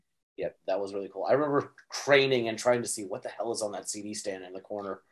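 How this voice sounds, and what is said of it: Usual voice. Nothing is said of it.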